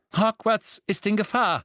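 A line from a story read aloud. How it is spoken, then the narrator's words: Calling out. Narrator (German): rief Professor McGonagall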